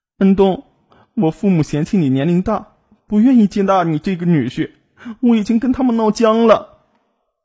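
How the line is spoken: Tearful, aggrieved. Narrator (Chinese): 梨花带雨的……委屈的哭诉道

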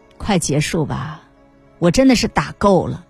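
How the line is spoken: Calm, weary. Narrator (Chinese): 在这次化疗的最后一天，我爸 淡淡的说了一句

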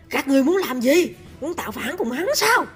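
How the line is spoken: Angry roar. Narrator (Vietnamese): tức giận gầm lên

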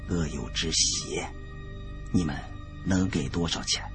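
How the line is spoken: Whispered. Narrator (Chinese): 李春来 小声说

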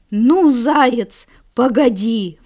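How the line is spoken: Roaring wolf. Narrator (Russian): взревел волк

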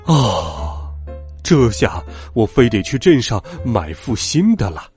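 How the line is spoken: Long sigh. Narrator (Chinese): 他长叹一声

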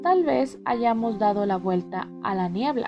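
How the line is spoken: Plain. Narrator (Spanish): dijo Caroline

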